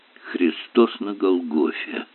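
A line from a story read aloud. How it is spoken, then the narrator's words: Hoarse rasp. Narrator (Russian): прохрипел профессор Ярли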